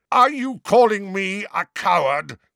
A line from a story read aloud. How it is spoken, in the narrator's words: roared Sirius